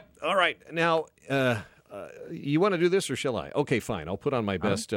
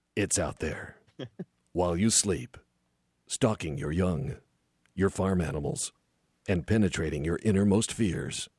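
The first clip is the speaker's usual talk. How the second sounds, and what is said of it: Dramatic movie trailer narrator voice. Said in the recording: “I'll put on my best movie trailer voice.”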